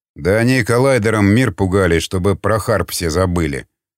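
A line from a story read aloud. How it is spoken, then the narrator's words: Grumbling. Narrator (Russian): проворчал Тибетс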